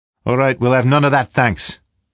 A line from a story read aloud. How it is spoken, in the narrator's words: the barman called out from behind the counter